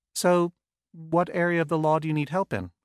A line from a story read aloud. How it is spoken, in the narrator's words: I asked in a relaxed, almost bored tone